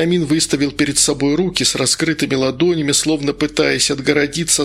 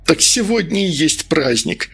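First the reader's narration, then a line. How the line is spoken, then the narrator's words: Exclaiming. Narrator (Russian): воскликнул Медовар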